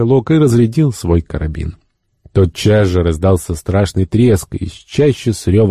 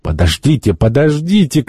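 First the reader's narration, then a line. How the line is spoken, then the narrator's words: Shouted. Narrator (Russian): крикнул господин Мигель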